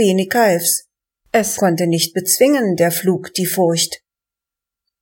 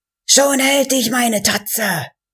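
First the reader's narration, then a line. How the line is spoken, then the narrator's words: Screamed. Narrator (German): schrie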